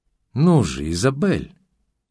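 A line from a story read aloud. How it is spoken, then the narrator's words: Gentle coaxing. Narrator (Russian): ласково приговаривала Стеклова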